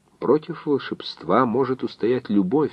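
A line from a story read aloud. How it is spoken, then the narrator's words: Thoughtful. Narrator (Russian): задумчиво вымолвила Гера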